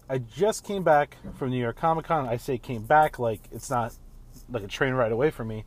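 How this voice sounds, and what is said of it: Slightly altered, sick-sounding voice. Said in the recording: “my voice is a little different. That's because I'm kind of getting over being sick”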